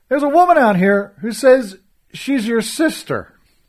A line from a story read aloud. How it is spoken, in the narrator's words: called out